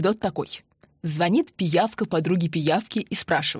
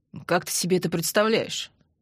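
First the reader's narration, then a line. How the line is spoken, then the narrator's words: Skeptical grunt. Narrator (Russian): хмыкнул Андрей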